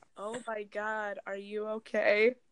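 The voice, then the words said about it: Flat monotone fake concern. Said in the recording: “this is his exact tone of voice ... faking, being afraid ... trying to like hold in a laugh. So he was very monotone.”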